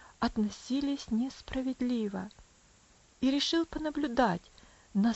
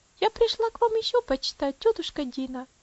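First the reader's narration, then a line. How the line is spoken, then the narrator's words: Sweet, gentle little girl. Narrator (Russian): сказала маленькая девочка своим приятным нежным голосом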